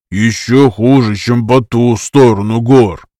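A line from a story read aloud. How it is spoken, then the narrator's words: Grumbling. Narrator (Russian): проворчал Энку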